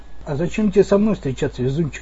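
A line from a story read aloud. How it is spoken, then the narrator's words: Tired question. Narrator (Russian): устало спросил я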